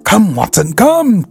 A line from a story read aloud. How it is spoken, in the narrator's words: cried Holmes